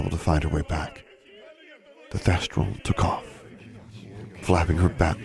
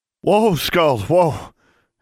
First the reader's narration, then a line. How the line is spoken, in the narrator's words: Alexandra cried